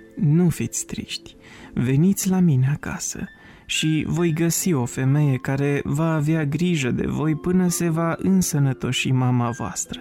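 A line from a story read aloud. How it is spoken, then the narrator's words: Said gently, kindly. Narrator (Romanian): Episcopul, care iubea foarte mult copiii, i-a mângâiat cu blândețe și le-a spus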